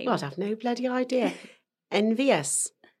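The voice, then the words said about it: Welsh accent. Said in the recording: “Oh my God, I did it in Welsh. I wasn't trying. As I say, I just slip into Welsh, I do.”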